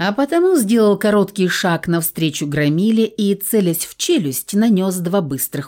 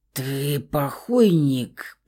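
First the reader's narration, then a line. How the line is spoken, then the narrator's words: Mumbled. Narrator (Russian): промямлил он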